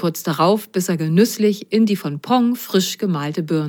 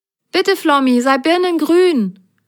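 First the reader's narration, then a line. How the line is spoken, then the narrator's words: Called out. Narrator (German): rief Grasgrün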